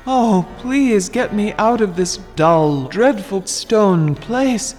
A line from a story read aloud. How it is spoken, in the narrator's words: cried Al-Budur